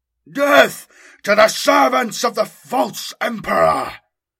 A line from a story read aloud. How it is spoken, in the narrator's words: roared